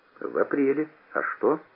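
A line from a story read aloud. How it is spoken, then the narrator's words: Calm, unsuspecting. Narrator (Russian): Не подозревая подвоха, я сказал спокойно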